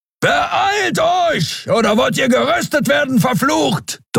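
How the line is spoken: Thundering shout. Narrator (German): donnerte Kero

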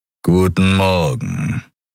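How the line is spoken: Growled. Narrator (German): knurrte

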